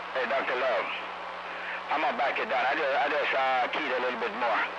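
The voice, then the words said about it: Jamaican accent. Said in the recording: “Don't let that Jamaican accent fool you.”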